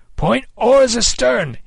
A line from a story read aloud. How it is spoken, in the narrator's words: he cried